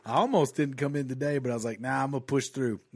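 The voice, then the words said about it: Hoarse, congested voice. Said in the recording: “voice was shot to shit last night, and I'm still getting over this cold.”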